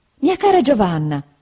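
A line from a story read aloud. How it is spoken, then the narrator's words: Mother exclaiming. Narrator (Italian): esclamò mia madre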